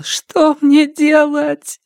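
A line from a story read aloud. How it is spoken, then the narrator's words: Sobbing girl mumbling. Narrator (Russian): Между всхлипами и рыданиями девушка бормотала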